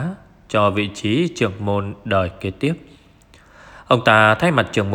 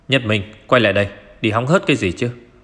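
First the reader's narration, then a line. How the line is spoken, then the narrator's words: Shouted call. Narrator (Vietnamese): Chú bà Lưu Nhất Minh quát gọi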